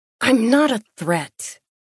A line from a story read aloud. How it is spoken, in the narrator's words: I snarled